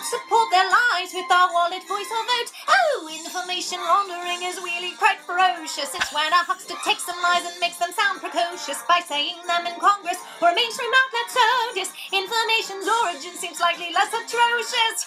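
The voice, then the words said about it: Singing in a British accent. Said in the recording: “With her British accent, she's a good little singer.”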